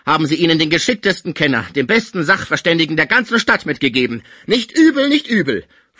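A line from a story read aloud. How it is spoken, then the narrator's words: Annoyed call. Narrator (German): rief Pons unwillig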